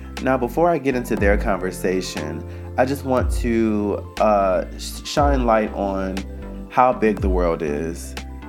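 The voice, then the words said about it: Raggedy voice from a cold. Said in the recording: “please excuse my voice, I'm getting over a cold and I'm doing my best not to sound raggedy”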